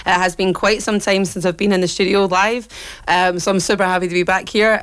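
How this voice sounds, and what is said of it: Very hoarse voice. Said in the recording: “my voice is still very hoarse after like losing it a couple of weeks ago”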